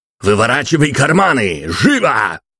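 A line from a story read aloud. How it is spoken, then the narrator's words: Distant barked shout. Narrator (Russian): рявкнули где-то в середине зала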